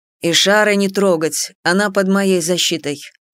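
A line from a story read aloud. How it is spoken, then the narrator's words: Cold. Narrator (Russian): холодно произнес Нарай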